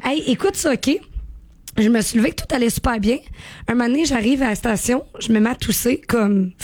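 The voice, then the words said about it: Weak, hoarse, tired voice. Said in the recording (French): “qu'est-ce qui arrive avec la voix, matin? ... J'ai plus de voix. Mais là, elle revient tranquillement ... Elle est fatiguée, la petite madame.”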